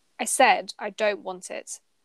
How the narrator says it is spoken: he says harshly, his tone demanding she not argue

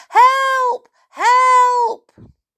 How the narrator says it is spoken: She ran out of the door shouting

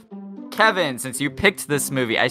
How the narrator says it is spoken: I snapped

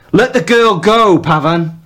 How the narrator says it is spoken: I yell

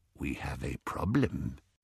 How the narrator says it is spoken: said the goblin softly

